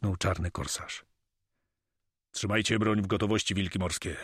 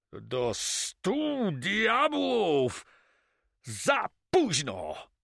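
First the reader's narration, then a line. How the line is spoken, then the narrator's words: Enraged roar. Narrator (Polish): ryknął rozjuszony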